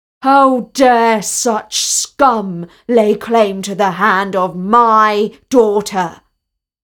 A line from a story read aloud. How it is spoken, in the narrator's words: The prince bellowed